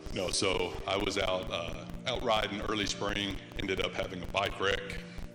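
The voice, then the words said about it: Smooth radio-style voice. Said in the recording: “You have, like, the coolest voice ... It's just such a radio voice.”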